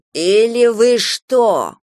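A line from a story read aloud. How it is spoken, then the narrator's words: Words through gritted teeth. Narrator (Russian): процедила брюнетка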